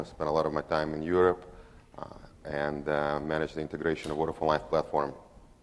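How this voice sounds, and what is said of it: Russian accent. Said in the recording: “accent doesn't come from the valleys of South Wales. He's actually from Russia.”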